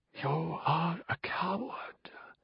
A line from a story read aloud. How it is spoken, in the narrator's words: the voice whispered